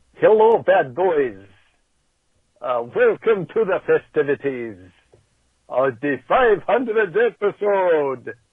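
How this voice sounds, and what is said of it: Dracula impression accent. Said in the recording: “I don't even know what this accent is... It's Dracula.”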